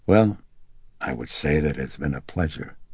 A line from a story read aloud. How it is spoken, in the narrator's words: the detective said gravely